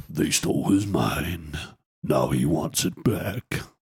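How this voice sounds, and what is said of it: Movie trailer announcer voice. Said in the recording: “the kind of the movie man voice thing about it ... my throat's been a bit dodgy”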